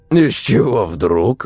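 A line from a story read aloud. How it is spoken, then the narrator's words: Snort. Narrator (Russian): Вадим хмыкнул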